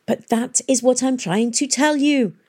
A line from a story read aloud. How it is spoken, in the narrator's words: cried Miss Fang impatiently